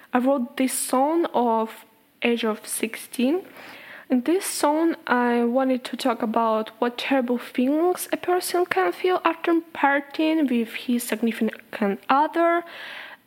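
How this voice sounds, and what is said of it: Strong non-native English accent. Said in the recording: “my accent is so bad.”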